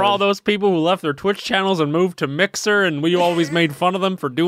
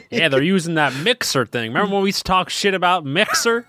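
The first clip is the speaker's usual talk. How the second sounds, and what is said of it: Put-on southern accent. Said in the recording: “I don't know why we developed a southern accent”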